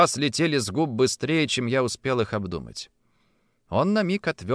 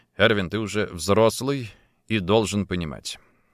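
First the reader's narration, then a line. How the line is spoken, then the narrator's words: Sighing reply. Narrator (Russian): ответил, вздохнув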